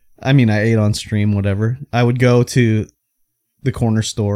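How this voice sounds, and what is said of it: Usual voice. Nothing is said of it.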